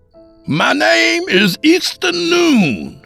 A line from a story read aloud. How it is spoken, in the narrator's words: I shouted